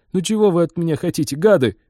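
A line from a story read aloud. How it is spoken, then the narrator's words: Whining. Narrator (Russian): заскулил он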